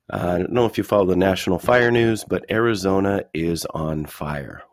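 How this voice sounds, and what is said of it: Husky, congested voice. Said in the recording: “hear it in my voice. I'm a little huskier today, a little bit congested ... Maybe it makes my voice sound cooler”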